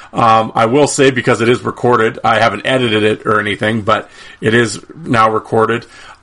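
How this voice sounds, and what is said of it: Hoarse, strained voice. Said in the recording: “I'm sort of losing my voice here.”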